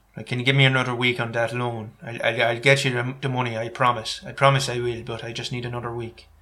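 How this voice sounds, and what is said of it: Put-on west of Ireland accent. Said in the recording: “This is an Irish accent from the West Country. People from the west of Ireland sound like this. They sound like they're about to ask you for a favour, but they're a bit embarrassed about it.”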